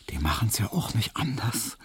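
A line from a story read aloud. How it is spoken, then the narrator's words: Smiling whisper. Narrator (German): flüsterte ihm Hedwig lächelnd zu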